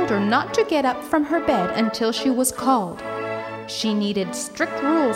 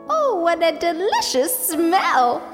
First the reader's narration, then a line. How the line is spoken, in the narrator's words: exclaimed